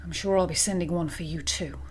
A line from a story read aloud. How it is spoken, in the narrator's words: she said quietly